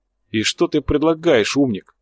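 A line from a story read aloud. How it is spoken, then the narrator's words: Angry snarl. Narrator (Russian): зло ощерился Коча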